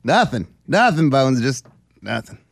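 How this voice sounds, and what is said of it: Imitates another person's voice. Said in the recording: “He does a good impression.”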